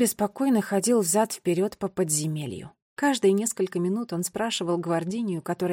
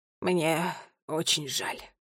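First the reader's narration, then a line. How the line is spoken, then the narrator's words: Sighing. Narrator (Russian): вздохнул Шерлока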